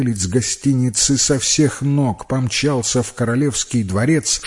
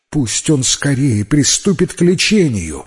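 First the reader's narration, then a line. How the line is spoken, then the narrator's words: King exclaiming. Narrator (Russian): воскликнул король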